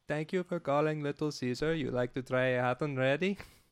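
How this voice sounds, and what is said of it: Put-on foreign accent. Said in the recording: “You do a great accent. ... I used to answer the phones in that voice.”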